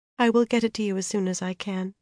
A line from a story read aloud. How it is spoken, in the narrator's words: she said at last, in a resigned voice